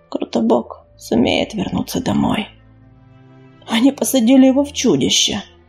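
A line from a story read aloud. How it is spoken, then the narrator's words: Breathed out. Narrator (Russian): выдохнул Сераус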